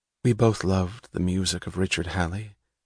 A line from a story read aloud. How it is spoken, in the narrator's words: she heard herself saying softly